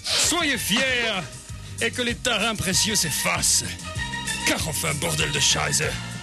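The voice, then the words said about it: Belgian French accent. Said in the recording (French): “Pourquoi vous avez l'accent belge?”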